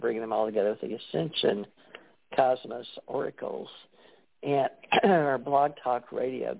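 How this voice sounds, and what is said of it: Strained voice giving out. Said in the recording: “Goodness, I'm losing my voice now.”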